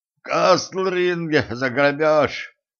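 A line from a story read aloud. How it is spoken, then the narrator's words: Hoarse rasp. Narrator (Russian): прохрипел грабитель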